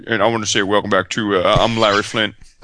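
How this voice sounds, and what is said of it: Imitates another person's voice. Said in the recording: “That was my Larry Flint impersonation. ... It was pretty good.”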